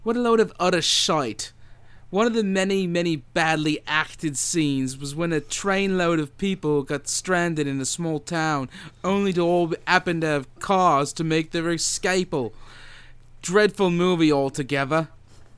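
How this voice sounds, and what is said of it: Put-on British accent. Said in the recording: “he uses a British swear word. So I'm going to do this with an accent.”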